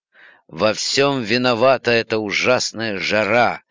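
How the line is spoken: Groan. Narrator (Russian): простонала миссис Диллингтон Блик

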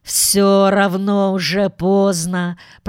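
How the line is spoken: Moan. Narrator (Russian): простонал мистер Браун

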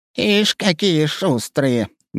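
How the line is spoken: Displeased grumble. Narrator (Russian): недовольно проворчала Авдотья Егоровна

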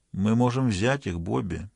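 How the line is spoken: Quiet guard. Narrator (Russian): негромко сказал один из охранников

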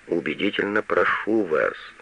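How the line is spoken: Listless mumble. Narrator (Russian): вяло бормочет Штудман

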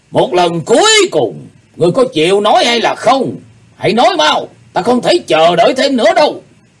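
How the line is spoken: Deep-voiced exclamation. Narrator (Vietnamese): lão cụt tay lại trầm giọng thốt lên

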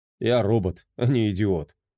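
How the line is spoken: Snorting. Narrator (Russian): хмыкнул Фредди

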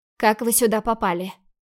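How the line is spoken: Steely voice, hiding fear. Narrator (Russian): Уточнила стальным голосом, пытаясь сделать вид, что мне совсем не страшно

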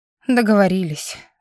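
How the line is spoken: Sigh. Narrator (Russian): вздохнула

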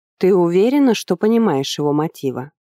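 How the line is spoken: Plain. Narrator (Russian): спросила она

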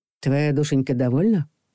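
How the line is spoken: Overly soft question. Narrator (Russian): Мягко, даже чересчур мягко спросил Макар

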